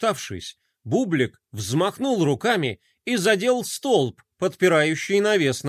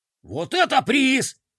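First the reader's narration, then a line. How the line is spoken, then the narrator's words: Excited exclamation. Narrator (Russian): воскликнул космоблогер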